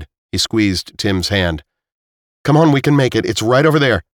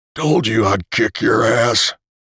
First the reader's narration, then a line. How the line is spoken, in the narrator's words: Tim wheezed